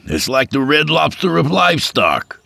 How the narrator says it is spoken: he yelled toward the crowd

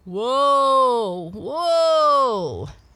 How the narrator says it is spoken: He called loudly

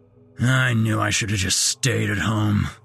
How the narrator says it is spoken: growled some dumpy-looking bearded man

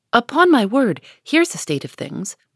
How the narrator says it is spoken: cried the old lady

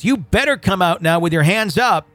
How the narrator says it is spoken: The man shouts

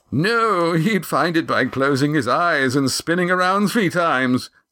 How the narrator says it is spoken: said the first, chuckling at his own wit

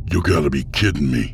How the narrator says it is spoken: Boswick snapped

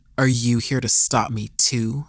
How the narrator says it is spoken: He grumbled under his breath

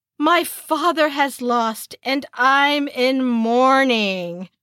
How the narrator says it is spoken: acted dramatically crushed, saying

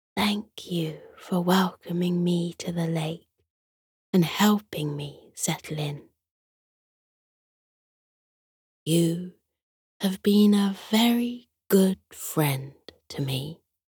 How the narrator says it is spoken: Penny turned to Fritz and whispered

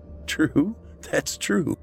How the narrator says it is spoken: Matt said with a laugh

